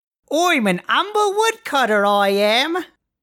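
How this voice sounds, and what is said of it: Exaggerated put-on accent. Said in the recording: “my impeccable accent work ... That's certainly an accent.”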